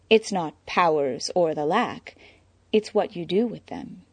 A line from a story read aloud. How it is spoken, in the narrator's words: Selina purred